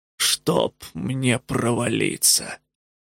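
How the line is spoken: Breathless exhale. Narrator (Russian): выдохнул Тик

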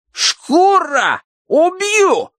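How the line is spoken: Furious yell. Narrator (Russian): завопил он

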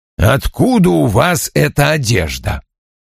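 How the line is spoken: Growl. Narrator (Russian): прорычал он

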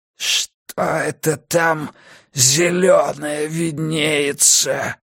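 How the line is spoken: Ghostly croak. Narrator (Russian): прохрипел этот призрак

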